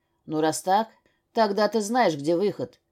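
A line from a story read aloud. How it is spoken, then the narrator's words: Rough male voice. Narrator (Russian): грубым голосом произнес мужчина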